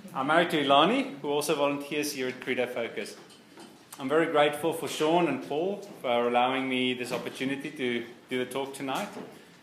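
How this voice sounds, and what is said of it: South African accent with London influence. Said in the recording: “I'm originally from South Africa, but I also spent some time in London, which is why my accent's a little bit strange.”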